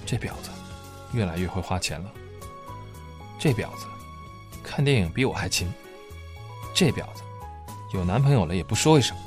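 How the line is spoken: Muttered cursing. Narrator (Chinese): 他才会喃喃自语的骂

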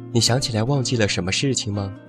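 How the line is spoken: Plain. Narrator (Chinese): 爷爷 说

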